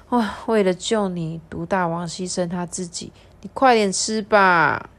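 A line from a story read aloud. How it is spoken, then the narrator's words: Choked with tears. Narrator (Chinese): 哽咽的说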